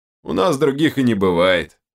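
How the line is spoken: Short chuckle. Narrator (Russian): хохотнул Берс

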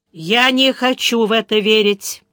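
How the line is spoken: Chancellor through clenched teeth. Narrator (Russian): сквозь зубы произнес канцлер

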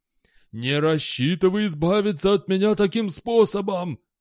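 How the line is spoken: Icy wheeze. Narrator (Russian): просипел Зильберкит леденее

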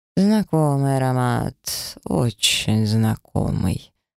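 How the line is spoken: Drawling. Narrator (Russian): протянул инквизитор

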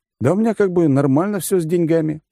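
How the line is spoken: Suspicious muttering. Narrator (Russian): буркнул я, все еще ища, где подвох

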